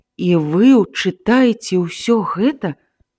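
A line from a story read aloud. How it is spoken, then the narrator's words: Sigh. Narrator (Belarusian): Андрэй уздыхнуў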